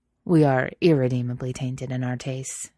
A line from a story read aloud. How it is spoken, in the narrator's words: Jack says gravely